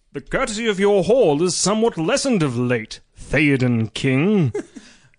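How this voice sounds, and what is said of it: Gandalf character voice. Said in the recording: “Can you do a good Gandalf voice?”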